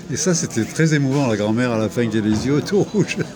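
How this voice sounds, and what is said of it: Singsong Provençal French accent. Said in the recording (French): “votre accent chantant de la Provence”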